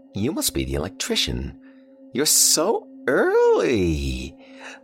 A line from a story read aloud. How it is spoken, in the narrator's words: She chirped